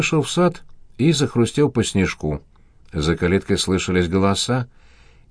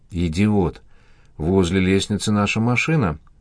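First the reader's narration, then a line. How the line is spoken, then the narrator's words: Hoarse rasp. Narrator (Russian): прохрипел Константин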